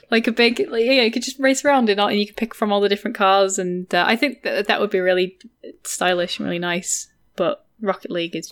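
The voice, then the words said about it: Scouse (Liverpool) accent. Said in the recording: “The Scouse accent ... shut it, John Lennon”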